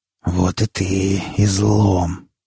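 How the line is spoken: Tense hiss. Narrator (Russian): прошипел сталкер, не сводя с девушки напряженного взгляда

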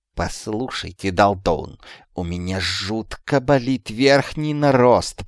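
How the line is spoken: Hissed. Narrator (Russian): прошипел Шлиз

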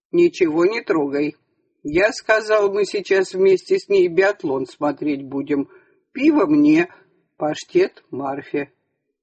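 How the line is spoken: Stern. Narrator (Russian): Сашка строго сказал

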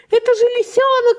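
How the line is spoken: Aunt exclaiming. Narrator (Russian): воскликнула тетушка Ласки

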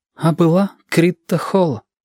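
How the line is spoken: Sighing. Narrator (Russian): вздохнул Женька

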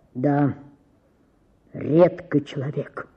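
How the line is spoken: Deep bass voice. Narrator (Russian): сказал кто-то басом в гостиной

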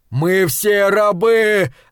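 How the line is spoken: Shout. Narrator (Russian): закричал Нокс

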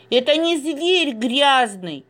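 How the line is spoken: Shouted. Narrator (Russian): закричал Саша

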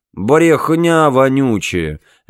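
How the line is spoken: Lazy. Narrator (Russian): лениво сказал Билл

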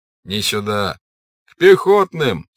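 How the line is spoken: Laughing. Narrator (Russian): с хохотом прибавлял другой

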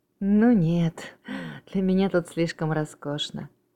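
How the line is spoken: Laughing. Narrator (Russian): засмеялся Эдвард

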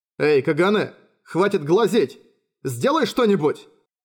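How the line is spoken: Shouted. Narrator (Russian): крикнул Юсихико

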